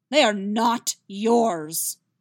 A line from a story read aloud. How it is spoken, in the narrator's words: Vesemir practically roars